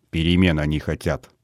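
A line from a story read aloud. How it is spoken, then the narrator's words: Grumbling mutter. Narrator (Russian): пробурчал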